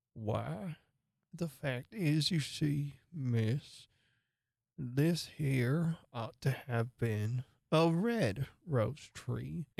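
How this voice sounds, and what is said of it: Speaks in a very low voice. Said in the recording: “in a very low voice”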